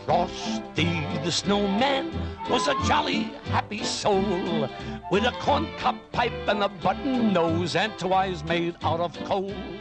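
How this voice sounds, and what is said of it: New York accent. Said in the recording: “such a New York accent”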